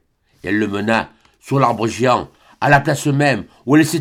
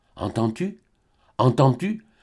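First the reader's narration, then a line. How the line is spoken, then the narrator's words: Stammering into ear. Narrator (French): balbutia Albine à l'oreille de Serge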